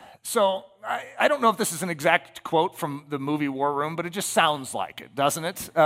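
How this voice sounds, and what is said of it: Usual voice. Nothing is said of it.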